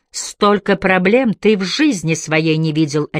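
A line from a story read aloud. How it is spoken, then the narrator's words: Barked. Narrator (Russian): рявкнула она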